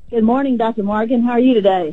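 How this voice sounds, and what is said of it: Happy, cheerful voice. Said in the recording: “you sound so happy”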